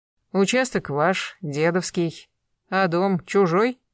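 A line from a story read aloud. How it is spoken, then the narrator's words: Grunting smirk. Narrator (Russian): хмыкнул Гектор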